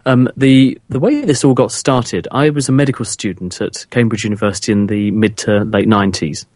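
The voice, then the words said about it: Husky voice from a cold. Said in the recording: “I've got a bit of a cold this week, so forgive my rather husky voice.”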